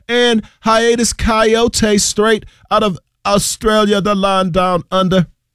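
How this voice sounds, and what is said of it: Poor put-on Australian accent. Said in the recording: “In Australia, I apologize for that trash accent”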